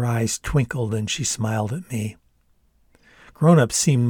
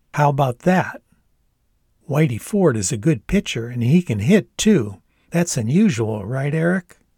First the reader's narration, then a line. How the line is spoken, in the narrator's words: Dad nodded and chuckled